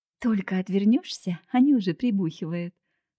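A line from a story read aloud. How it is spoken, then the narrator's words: Laughing. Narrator (Russian): рассмеялась она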